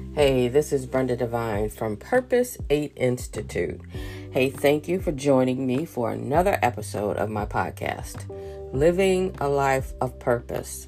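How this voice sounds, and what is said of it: Slightly hoarse voice. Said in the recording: “I am getting over a cold, and so my voice is a little coarse.”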